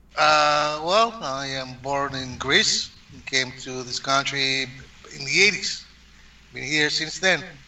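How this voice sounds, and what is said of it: Slight Greek accent. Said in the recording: “I hear a little accent in your voice ... that Greek”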